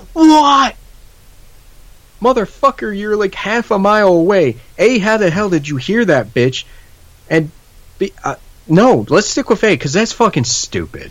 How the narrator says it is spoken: the guy says

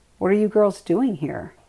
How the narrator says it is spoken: he asked

